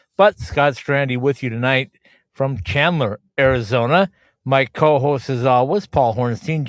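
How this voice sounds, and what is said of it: Slightly raspy voice. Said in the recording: “I'm still a little raspy, still a little under the weather.”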